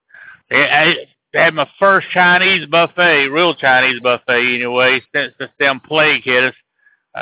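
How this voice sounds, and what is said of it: Thick Alabama accent, mumbling. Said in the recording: “I'm a mumbler. An Alabama mumbler... somebody from Alabama with their thick Alabama accent mumbling”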